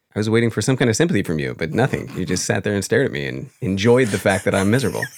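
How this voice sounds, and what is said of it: Tired, worn-out voice. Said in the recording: “I am completely dog-tired, and so you can hear in my voice, I'm kind of wrecked from this weekend.”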